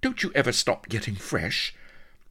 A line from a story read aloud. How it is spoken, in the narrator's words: exclaimed Vanity